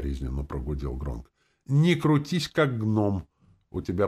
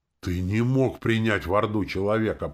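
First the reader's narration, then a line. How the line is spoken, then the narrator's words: Growled. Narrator (Russian): прорычала Орчица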